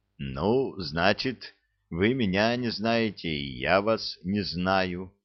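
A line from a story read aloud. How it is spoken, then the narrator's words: Calm. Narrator (Russian): спокойно ответил хозяин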